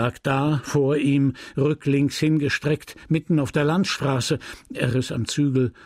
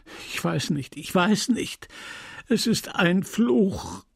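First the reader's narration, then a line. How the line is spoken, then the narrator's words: Sobbing reply. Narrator (German): der andere erwiderte schluchzend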